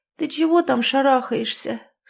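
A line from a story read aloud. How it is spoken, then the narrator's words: Sleepy question. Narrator (Russian): сонно спросила Лизавета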